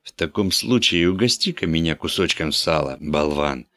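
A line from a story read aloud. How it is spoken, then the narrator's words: Gentle request. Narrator (Russian): ласково попросит третий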